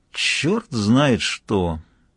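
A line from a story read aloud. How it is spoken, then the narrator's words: Perfectly flat, regretful tone. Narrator (Russian): сказал он совершенно ровным тоном, заранее сожалея, но не в силах остановиться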